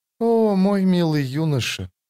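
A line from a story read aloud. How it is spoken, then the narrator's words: Quiet speech. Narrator (Russian): тихо проговорила она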